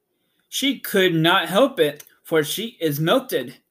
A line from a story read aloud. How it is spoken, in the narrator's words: explained the Scarecrow happily